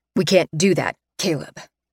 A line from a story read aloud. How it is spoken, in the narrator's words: Principal Darhauer says wearily